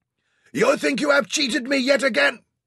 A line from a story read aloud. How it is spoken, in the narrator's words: Osman shouted across the water